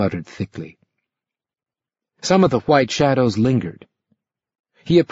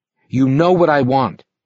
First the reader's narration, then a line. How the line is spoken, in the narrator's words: he said